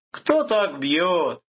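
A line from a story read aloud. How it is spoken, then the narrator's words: Exclamation. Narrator (Russian): воскликнул Виктор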